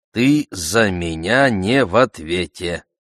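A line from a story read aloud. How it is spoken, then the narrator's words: Warning. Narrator (Russian): Тюбе предупредил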